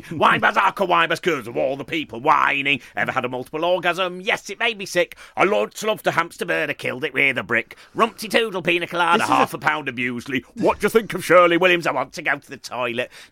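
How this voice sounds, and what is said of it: Imitates another person's voice. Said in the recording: “pretend to be Alexei Sayle ... that is an amazing impression ... of Alexei Sayle”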